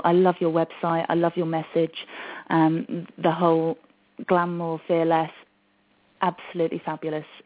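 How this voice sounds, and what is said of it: British accent. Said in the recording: “a British accent”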